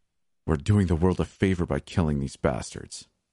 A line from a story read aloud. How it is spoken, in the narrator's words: grumbled